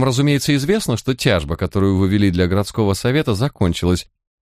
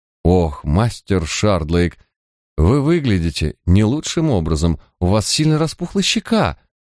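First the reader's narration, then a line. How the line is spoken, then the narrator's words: Sighing with fake sympathy. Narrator (Russian): с фальшивым сочувствием вздохнул Билкнеп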